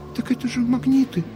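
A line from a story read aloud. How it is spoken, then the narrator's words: Quietly repeated. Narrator (Russian): тихо повторила Мариночка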